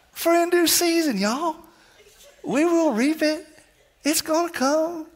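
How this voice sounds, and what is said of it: Imitates another person's voice. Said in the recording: “there's a Matthew McConaughey accent that comes with it ... Let me just do it the way I've wanted to do it”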